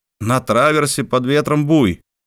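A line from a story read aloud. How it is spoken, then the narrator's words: Sudden sailor's shout. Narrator (Russian): Вдруг матрос, наблюдавший с бранстенги море, крикнул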